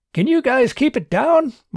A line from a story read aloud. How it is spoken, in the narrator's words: Martin called out